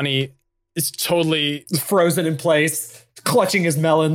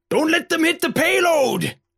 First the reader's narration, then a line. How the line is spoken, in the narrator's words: shouts to Donnie